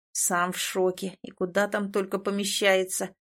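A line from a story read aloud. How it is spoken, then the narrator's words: Grumbling spirit. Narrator (Russian): ворчал Тин в образе духа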